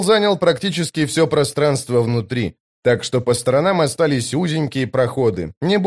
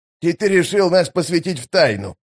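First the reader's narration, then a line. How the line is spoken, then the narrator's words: Scornful snort. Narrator (Russian): фыркнул Штырь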